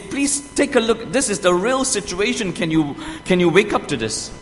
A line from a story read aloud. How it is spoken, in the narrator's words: we have pleaded, and say